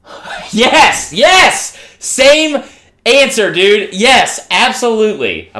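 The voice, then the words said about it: Excited yelling. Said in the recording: “I'm sorry for yelling, everybody.”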